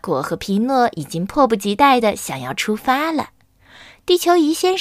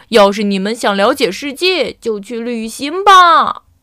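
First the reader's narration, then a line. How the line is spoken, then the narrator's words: Shouting loudly. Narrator (Chinese): 地球仪先生大声叫道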